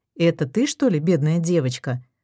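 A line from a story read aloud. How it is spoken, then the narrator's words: Snide snort. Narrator (Russian): хмыкнул вредный Мельников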